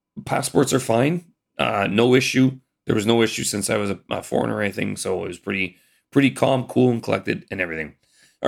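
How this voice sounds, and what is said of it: Hoarse, gravelly, failing voice. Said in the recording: “My voice is going ... my grovelly voice”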